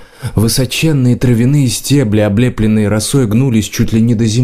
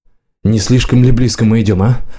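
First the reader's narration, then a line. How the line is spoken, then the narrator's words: Muttering under breath. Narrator (Russian): бормотал варан себе под нос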